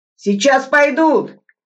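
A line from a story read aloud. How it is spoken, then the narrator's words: Shout. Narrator (Russian): крикнул Мятников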